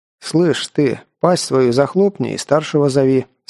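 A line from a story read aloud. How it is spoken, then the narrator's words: Calm reply. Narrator (Russian): спокойно ответил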